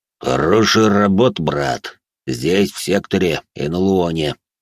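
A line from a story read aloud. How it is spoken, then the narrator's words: Deep bass voice. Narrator (Russian): командующий пробасил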